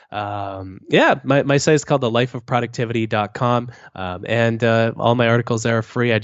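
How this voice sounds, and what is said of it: Lower-pitched voice than usual. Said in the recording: “I have a cold right now, so it's a bit lower than the audiobook”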